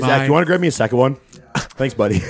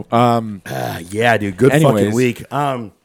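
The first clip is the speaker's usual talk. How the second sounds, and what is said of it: Sarcastic delivery. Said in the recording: “That was sarcasm.”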